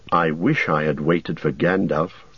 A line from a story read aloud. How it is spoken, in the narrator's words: Frodo muttered